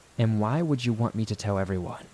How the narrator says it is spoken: I asked

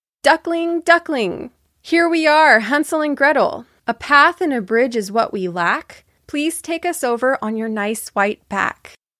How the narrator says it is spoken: she called out to it

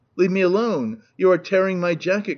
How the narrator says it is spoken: cried the unhappy victim

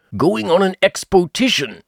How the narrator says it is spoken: said Pooh eagerly

